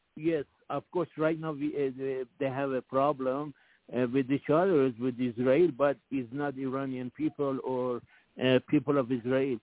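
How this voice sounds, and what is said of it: Persian accent in English. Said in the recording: “I hear your accent ... We are from Persian”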